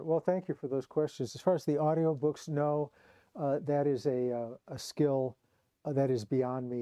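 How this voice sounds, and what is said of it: Slightly hoarse voice. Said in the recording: “you can hear I'm a little bit hoarse.”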